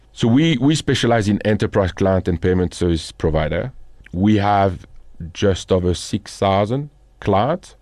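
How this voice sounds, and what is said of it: French accent. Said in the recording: “I've got a French accent. ... I think people are still picking it up. Cannot hide it after 18 years in South Africa. It's still there.”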